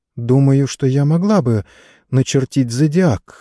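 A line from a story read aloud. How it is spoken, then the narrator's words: Uncertain. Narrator (Russian): неуверенно сказала леди Катрин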